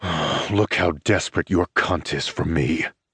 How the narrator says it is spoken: I snarl

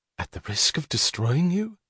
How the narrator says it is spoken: She whispered

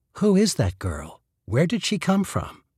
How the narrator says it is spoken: she asked quietly

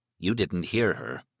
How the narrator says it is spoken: he said grimly

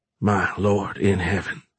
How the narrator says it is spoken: Fisher muttered

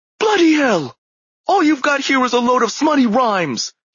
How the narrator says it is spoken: he barked

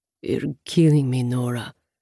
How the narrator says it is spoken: Raul grumbles

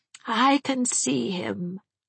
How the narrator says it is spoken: said Miss Minerva dreamily

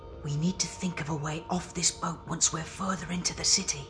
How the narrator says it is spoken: whispered the Christmas pig, his snout snuffling against Jack's cheek

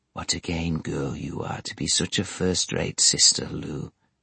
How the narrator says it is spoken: whispered Tom

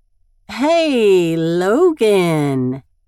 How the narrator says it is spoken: Evelyn drawls

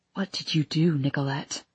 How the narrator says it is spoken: He whispered

